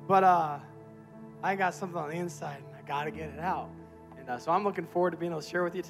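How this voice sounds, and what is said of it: Rough, strained voice. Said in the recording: “My voice is a little hard. ... is he going to sound like this the whole time? Yes.”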